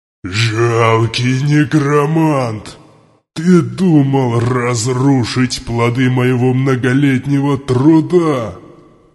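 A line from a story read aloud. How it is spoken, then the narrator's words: Demon roaring. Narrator (Russian): Проревел демон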